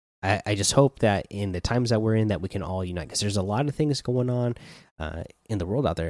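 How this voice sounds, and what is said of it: Hoarse, strained dry voice. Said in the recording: “You probably hear it in my voice. Like I, have I've been struggling to get through this episode because my throat is like shot ... it really uh, drying out my throat. Like I said, you could, you could probably hear it.”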